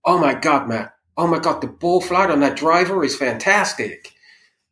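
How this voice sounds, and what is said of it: Put-on American accent. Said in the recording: “I'm going to try and do my best American accent, but don't shoot me if it's poor”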